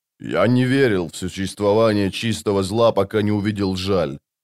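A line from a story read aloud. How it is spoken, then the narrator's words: Plain. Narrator (Russian): сказал быстрый Бен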